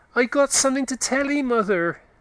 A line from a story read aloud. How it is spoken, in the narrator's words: he cried in a shrill tone